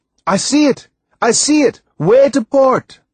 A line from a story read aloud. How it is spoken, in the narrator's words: Timothy yelled